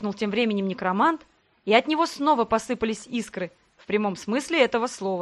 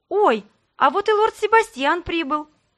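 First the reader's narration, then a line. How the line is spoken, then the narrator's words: Exclaiming. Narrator (Russian): воскликнула я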